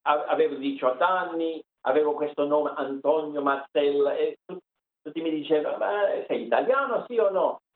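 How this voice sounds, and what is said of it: Campanian Italian accent from Ischia. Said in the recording (Italian): “l'accento campano, però, di Ischia”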